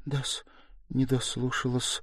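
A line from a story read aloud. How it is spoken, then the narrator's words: Mutter. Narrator (Russian): пробормотала Соня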